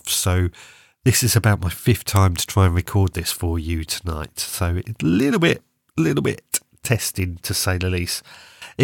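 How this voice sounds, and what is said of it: Congested, sore-throated voice. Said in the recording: “I'm a little bunged up today. I've got a bit of a sore throat, a bit of a cough ... I'm dealing with this cold.”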